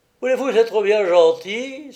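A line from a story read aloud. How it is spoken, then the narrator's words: Exclaiming. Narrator (French): s'écrie François Copé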